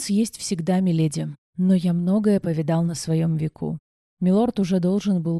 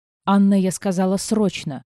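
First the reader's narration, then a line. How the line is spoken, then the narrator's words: Near growl. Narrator (Russian): едва не зарычала я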